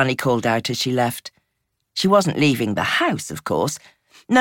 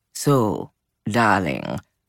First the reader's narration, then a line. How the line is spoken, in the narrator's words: Gigi purred